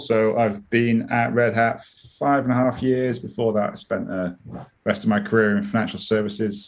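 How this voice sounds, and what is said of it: British accent. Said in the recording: “Obviously, you can tell from my accent, I'm in the United Kingdom.”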